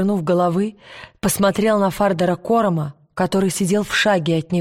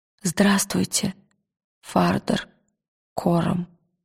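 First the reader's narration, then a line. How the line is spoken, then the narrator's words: Quiet. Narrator (Russian): тихо сказал он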